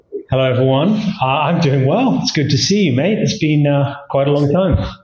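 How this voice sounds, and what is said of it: English accent turned half-American. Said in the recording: “that weird American accent ... the accent's about halfway across the Atlantic”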